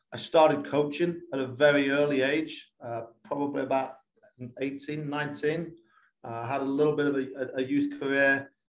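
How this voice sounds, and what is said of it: English accent from Lincolnshire. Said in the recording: “You're clearly not a Kentucky youth ... I am from Lincolnshire in England”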